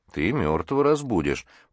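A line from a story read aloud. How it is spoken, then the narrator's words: Grumbling. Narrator (Russian): проворчал Джим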